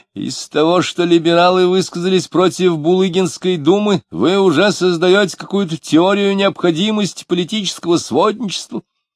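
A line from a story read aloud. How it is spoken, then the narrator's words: Many voices, fierce shouting. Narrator (Russian): Разноголосо, но одинаково свирепо закричали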